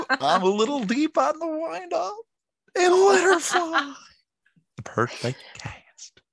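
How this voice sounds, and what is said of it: Goofy cartoon character voice impression. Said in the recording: “Goofy knows the perfect cast ... You're just way too good at that impression.”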